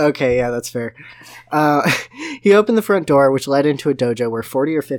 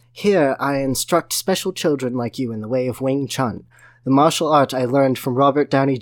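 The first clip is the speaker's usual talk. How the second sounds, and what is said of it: Bad put-on British accent. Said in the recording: “my terrible British accent”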